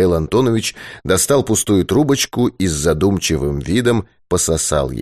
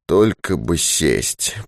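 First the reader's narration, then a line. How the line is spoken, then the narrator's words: Through gritted teeth. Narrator (Russian): процедил Дауги сквозь зубы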